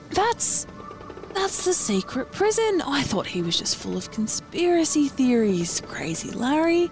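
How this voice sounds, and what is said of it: Soft slow Australian-sounding character voice. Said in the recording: “suddenly he's Aussie ... I was just trying for like... softer and like ... slower.”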